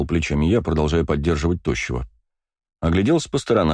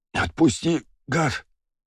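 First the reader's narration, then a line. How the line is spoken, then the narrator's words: Breathless moan. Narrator (Russian): простонал, выдохнул тощий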